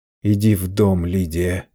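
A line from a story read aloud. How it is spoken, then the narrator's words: Groaning. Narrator (Russian): простонал Чарли жене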